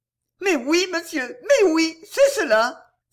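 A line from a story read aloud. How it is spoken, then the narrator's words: Joyful maid exclaiming. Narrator (French): s'exclama joyeusement la femme de chambre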